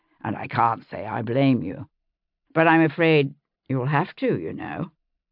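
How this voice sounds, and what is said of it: Character voice, English accent. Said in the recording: “in his normal English accent”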